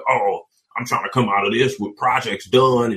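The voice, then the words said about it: Imitates another person's voice. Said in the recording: “Can you do the voice again? That was perfect. That was exactly what I sound like.”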